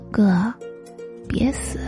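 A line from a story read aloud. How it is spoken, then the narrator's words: Quiet sleepy mumbling. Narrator (Chinese): 他在睡梦中小声嘟囔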